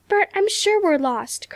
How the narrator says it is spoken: cried Nan

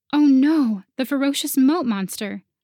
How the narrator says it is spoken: I wailed loudly, hoping Aeon could hear me

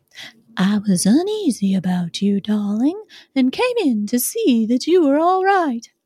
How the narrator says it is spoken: She said to me even more sweetly and softly than her wont

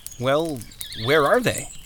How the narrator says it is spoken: laughed

